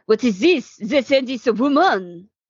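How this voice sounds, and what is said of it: Cartoonish put-on French accent. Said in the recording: “That was a good French accent. ... it was amazing for a cartoon character. ... From the 30s”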